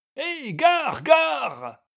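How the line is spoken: Coachmen bellowing. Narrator (French): criaient les cochers à plein poumon

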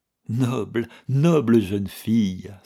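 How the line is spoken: Sighed. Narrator (French): soupira Manske

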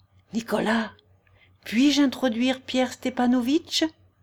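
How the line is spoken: Low-voiced question. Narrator (French): demanda-t-elle d'un ton bas

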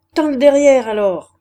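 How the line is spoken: Shouted. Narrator (French): cria-t-elle

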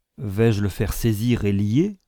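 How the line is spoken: Plain. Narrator (French): demanda Sir William

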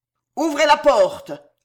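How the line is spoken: Thundering. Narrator (French): tonna Montmorency

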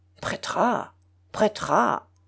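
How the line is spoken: Grumbling old woman. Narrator (French): grogna la vieille princesse

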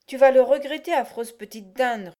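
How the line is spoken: Roaring. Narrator (French): rugit-il

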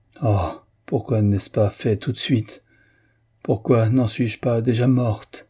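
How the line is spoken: Moaning. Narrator (French): gémit-elle

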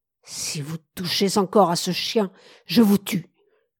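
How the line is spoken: Choked voice. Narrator (French): parvint-il à dire enfin d'une voix étranglée

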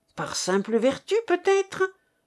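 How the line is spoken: Sneering. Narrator (French): ricana Serge, qui comprenait que sa proie lui échappait

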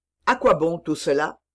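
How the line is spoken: Cold. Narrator (French): fit Aramis froidement

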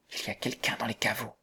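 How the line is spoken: Whispering. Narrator (French): dit-elle tout bas

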